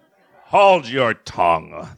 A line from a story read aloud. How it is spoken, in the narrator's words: the Queen thundered